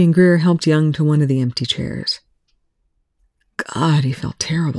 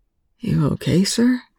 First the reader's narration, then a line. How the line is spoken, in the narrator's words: Greer asked, his voice hoarse